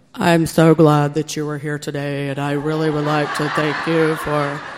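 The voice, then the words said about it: Flat monotone delivery. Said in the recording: “I don't think I've ever talked monotone in my whole life”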